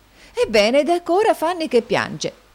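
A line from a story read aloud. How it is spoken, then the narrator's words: Astonished exclamation. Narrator (Italian): esclamò di nuovo stupita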